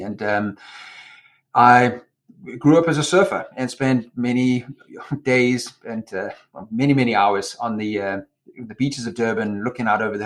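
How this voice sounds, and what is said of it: Non-American foreign accent. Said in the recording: “That is not a New Jersey accent.”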